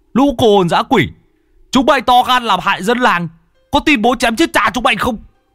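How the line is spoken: Shouting. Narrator (Vietnamese): Nhà Tứ quát

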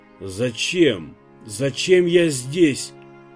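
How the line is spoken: Forced out. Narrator (Russian): выдавил Иван

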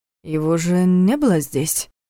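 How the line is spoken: Uncertain remark. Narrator (Russian): неуверенно заметил Войтах

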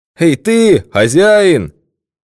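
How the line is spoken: Loud shout. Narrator (Russian): Громко крикнул он

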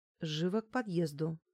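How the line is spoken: Quiet curt command. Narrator (Russian): бросила я тихо

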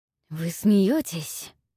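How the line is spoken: Hissing. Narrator (Russian): шипел Филипп

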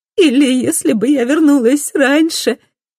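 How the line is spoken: Sobbing. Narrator (Russian): всхлипывает Мадде

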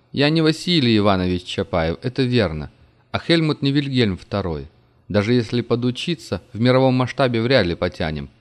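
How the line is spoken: Laughing. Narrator (Russian): он засмеялся

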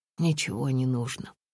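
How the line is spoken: Soft repetition. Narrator (Russian): повторил Сергий мягко

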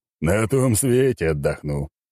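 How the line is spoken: Wry snort. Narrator (Russian): хмыкнул он

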